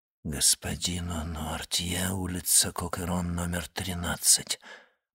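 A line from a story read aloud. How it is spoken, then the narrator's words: Frightened whisper. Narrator (Russian): прошептал он, побледнев еще сильнее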